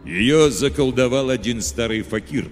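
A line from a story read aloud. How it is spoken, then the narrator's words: Plain. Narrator (Russian): ответил старшина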